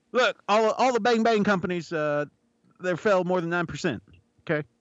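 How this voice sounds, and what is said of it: Old man voice, southern accent. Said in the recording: “southern accent when doing the old man voice”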